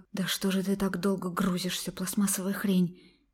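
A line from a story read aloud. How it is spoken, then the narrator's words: Displeased grumbling. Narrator (Russian): недовольно ворчала блондинка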